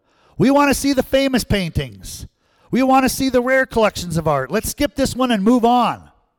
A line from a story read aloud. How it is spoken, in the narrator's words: a voice in the back of the room shouted out